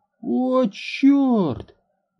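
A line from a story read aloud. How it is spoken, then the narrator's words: Exclaiming. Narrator (Russian): воскликнул Лайл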